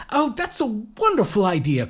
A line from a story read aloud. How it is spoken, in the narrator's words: cried Lloyd